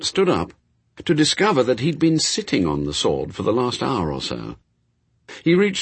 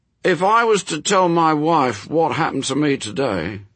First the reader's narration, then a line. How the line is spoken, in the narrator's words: told them, a little sadly